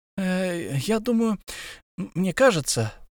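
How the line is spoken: Embarrassed mumble. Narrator (Russian): промямлил в смущении Бильбо

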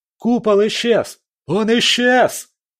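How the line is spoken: Shout from crowd. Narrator (Russian): закричал кто-то из толпы

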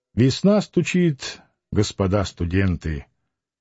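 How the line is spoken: Quiet. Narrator (Russian): сказал негромко

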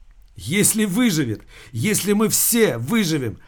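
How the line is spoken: Sobbing. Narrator (Russian): Она зарыдала

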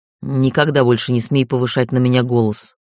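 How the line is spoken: Growled. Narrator (Russian): прорычал он

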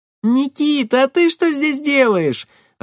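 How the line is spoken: Joyful shout. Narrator (Russian): радостно закричала она

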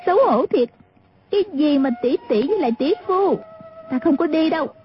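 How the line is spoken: Crying out. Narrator (Vietnamese): kêu lên

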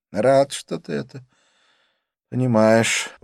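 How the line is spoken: Sighing. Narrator (Russian): он вздохнул

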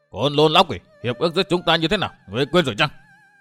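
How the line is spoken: Furious shout. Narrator (Vietnamese): Người áo tro cả giận quát

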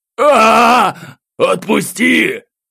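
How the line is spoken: Vicious yell with swearing. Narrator (Russian): Злобно завопил офицер, сдабривая свой крик порцией матов

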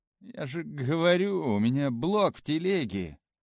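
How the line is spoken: Glum, dejected. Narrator (Russian): уныло сказал Паша

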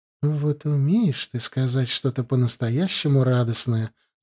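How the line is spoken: Affectionate purr. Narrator (Russian): ласково промурлыкала Джоан

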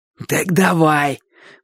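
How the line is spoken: Hoarse wheeze. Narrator (Russian): просипел Боча

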